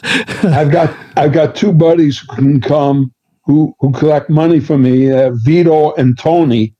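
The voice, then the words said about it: Bronx accent. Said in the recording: “It was not a Brooklyn accent I heard. It was a Bronx accent.”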